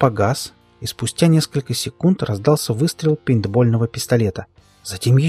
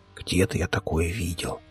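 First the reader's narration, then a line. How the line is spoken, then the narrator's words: Barely audible. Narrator (Russian): Дарт, произнеся чуть слышно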